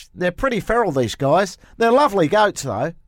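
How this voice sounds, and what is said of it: Put-on New Zealand accent, sounding Australian. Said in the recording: “Great accent. ... Actually, I think it was a bit more Australian than New Zealand. ... Although mine just sounded Scottish.”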